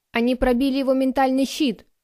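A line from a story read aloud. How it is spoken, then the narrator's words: Barked. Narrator (Russian): рявкнул другой техномант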